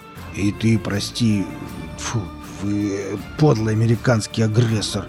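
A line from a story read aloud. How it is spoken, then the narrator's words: Strained, forced out. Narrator (Russian): Велес натужно выдавил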